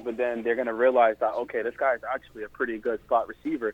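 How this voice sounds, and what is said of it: New York area accent. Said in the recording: “I'm hearing like a New York accent ... I heard a kind of accent”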